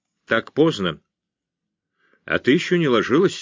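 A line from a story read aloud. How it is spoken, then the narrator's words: Plain. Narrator (Russian): сказал Бреннер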